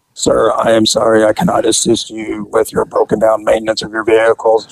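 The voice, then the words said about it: Monotone robot-like voice. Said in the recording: “in his monotone robot voice,”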